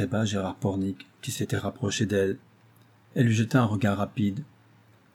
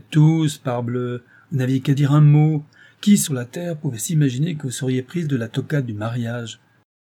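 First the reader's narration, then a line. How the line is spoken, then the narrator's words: Exclaiming. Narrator (French): s'écria Saint-Chet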